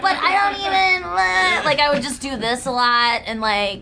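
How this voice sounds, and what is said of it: Sarah Silverman impression. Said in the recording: “Where's this accent come from? ... I would talk like her”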